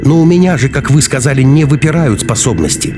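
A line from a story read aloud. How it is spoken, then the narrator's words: Desperate shout. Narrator (Russian): с отчаянием крикнула Маруся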